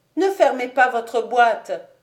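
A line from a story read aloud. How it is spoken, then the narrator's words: Exclaiming. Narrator (French): s'écria Henri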